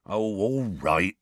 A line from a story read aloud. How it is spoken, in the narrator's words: Hagrid said in a resigned voice